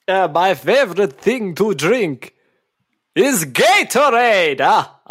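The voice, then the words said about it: Dracula-style vampire voice. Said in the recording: “you're a Dracula-type character from Transylvania ... talking like a Dracula-type character ... you just talk like a Dracula”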